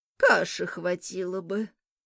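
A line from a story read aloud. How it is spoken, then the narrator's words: Grumbled. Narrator (Russian): снова буркнула бабушка Мо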